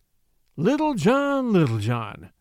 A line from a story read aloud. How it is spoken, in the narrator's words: said he sadly to himself